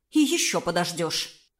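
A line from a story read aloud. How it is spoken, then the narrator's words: Curt, angry. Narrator (Russian): отрезала сердито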